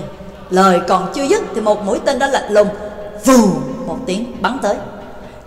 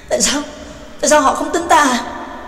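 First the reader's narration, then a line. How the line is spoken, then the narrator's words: Trembling question. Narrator (Vietnamese): Trác Lỗ chỉ run run rộng hỏi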